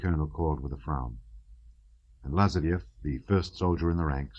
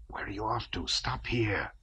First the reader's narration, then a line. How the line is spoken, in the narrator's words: voices whispered to Lazarev